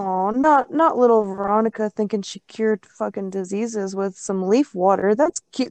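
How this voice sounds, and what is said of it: Sarcastic voice. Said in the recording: “I was being sarcastic ... I was using a sarcastic voice”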